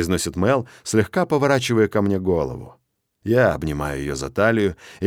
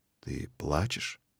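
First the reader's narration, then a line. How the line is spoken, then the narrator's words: Soft gentle question. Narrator (Russian): спрашиваю я мягко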